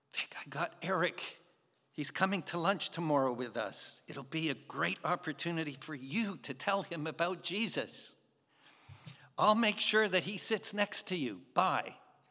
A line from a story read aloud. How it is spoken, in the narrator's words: she was whispering, and she said